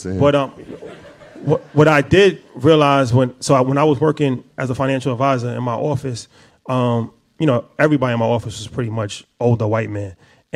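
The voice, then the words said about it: New York accent. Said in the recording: “I actually had a New York accent ... I didn't have the best diction ... I had an accent and I didn't sound like anybody else in the office”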